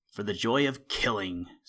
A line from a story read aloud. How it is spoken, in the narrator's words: snarled the weasel